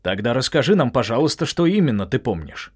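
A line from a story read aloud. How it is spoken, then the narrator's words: Sharp. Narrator (Russian): резко проговорил Дональд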